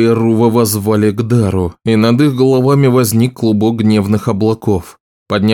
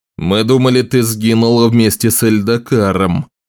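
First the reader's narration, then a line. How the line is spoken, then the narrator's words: Growl. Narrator (Russian): прорычал Утрос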